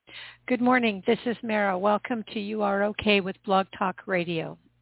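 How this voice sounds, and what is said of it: Hoarse voice. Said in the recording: “I'm a little bit hoarse today”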